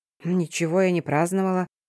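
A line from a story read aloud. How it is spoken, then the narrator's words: Quiet. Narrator (Russian): проговорила тихо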